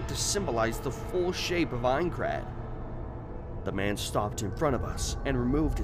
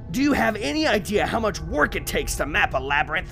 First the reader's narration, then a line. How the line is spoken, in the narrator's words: He bellowed